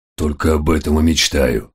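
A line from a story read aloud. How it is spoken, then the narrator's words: Grumbling. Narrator (Russian): буркнул Фенрир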